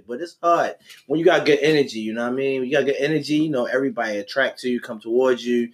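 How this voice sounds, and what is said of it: Baltimore inner city accent. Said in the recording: “That's a inner city accent ... it's Baltimore ... Baltimore accent is just Baltimore ... I still got the accent”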